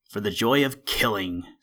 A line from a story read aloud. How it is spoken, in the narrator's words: snarled the weasel